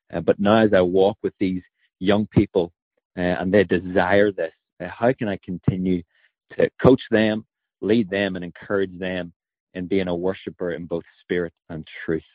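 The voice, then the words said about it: Irish accent. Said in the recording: “we're all jealous of your accent. Very cool, that Irish accent.”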